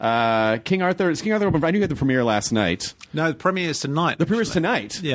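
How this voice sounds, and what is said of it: Usual voice. Nothing is said of it.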